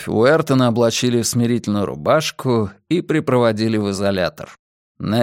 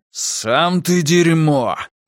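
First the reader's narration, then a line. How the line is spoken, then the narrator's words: Beastly growl. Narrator (Russian): прорычал зверюга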